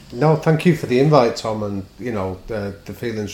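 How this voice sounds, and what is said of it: Northern English accent. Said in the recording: “a beautiful northern accent coming all the way from lockdown in Manchester”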